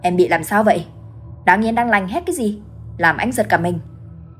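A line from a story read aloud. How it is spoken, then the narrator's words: Startled angry snapping. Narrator (Vietnamese): Giống như bị tạt một gáo nước lạnh, hắn gắt ầm lên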